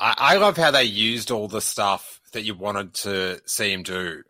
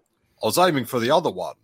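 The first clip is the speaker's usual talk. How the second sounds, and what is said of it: Put-on New Zealand accent. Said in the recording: “Pardon my accent. ... I'm sorry to all my New Zealand friends.”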